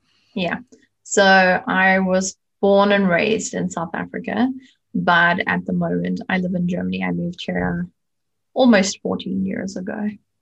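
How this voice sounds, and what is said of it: South African accent. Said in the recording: “beautiful accent”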